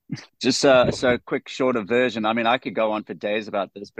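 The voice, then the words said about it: South African accent. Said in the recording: “you're from South Africa, obviously, because of your accent”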